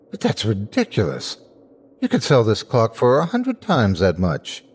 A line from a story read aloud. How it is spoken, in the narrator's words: gaped at him and at last cried